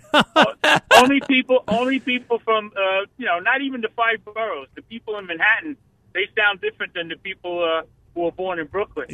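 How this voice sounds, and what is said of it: Brooklyn New York accent. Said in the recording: “clearly, obviously, I can hear your accent. If I go to Brooklyn ... do they think I have an accent”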